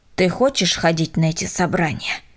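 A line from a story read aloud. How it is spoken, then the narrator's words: Stern question. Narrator (Russian): строго спросил Миша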